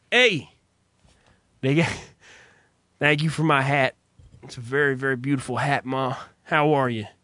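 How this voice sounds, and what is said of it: Put-on Southern American accent. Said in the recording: “I'm going to give myself a southern accent ... assume the role of a character that I've created”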